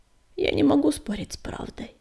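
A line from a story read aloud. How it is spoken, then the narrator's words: Sad. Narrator (Russian): грустно покачал головой Огнегриф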